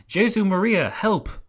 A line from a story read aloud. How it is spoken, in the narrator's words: One of the councillors who had been thrown out of the window cried